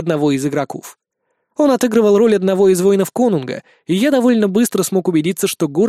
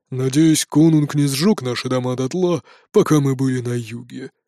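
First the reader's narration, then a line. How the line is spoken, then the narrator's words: Grumbled. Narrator (Russian): проворчал Бродди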